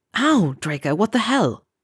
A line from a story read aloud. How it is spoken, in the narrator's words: hissed